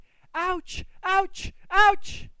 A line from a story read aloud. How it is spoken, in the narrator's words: He was screaming